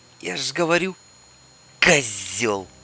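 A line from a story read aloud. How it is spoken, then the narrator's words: Through gritted teeth. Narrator (Russian): сквозь зубы процедила Ольга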